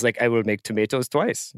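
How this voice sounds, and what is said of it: Put-on German accent. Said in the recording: “that was great, by the way. I do want to acknowledge your German accent.”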